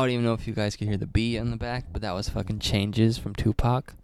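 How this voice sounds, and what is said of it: Usual voice. Nothing is said of it.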